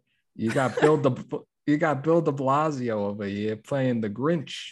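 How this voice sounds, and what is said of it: Put-on strong New York accent. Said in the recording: “in a strong New York accent”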